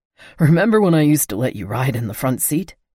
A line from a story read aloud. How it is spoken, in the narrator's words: He said, laughing a little